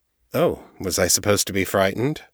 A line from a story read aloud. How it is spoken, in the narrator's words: Jared asked blandly